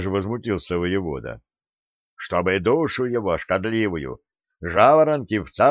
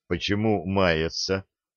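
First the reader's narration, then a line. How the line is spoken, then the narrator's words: Resigned sigh. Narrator (Russian): вздохнул Середин, поняв, что дело маленького конокрада окончательно проиграно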